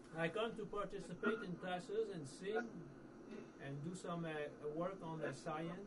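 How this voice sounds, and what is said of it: French accent. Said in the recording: “your French accent”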